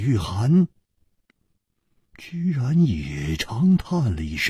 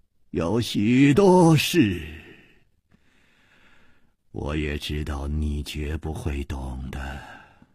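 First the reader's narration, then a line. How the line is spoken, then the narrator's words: Calm sigh. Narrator (Chinese): 李玉涵也不生气，竟又叹息了一声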